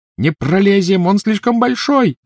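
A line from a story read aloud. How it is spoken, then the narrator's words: Shouting. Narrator (Russian): закричала Гермиона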